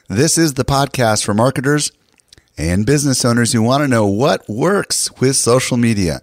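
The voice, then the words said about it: Slightly hoarse voice. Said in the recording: “my voice is a little hoarse,”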